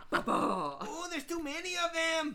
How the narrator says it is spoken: yelled Pat

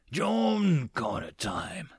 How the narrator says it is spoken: the Labarians whispered to one another

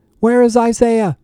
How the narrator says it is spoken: Paul screamed

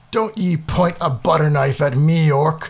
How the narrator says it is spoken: bellowed Garthur

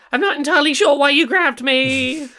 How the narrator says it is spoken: Trizzy's going to shout back

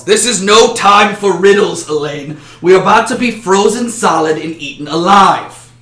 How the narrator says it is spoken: The barbarian then yells

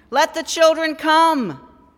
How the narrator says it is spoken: she shouted

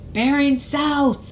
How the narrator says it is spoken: shouted Mad-Eye

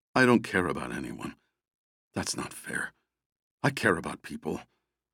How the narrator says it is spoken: He mumbled to himself

